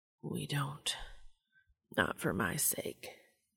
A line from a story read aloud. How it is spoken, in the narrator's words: murmured